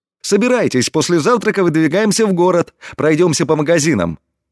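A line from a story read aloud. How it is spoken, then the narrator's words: Cheerful. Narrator (Russian): весело произнес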